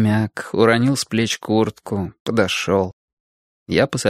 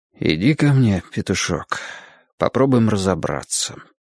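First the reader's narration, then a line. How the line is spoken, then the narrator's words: Quiet. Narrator (Russian): тихо сказал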